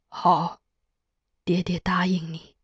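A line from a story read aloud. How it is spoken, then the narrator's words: Gentle, warm. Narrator (Chinese): 他温言道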